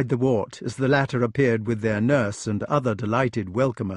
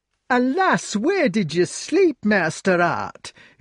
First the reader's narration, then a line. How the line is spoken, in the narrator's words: exclaimed the nurse